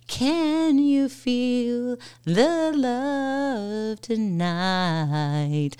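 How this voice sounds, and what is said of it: Slightly off-key singing. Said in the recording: “I feel like we need to sing here ... my voice is a little off”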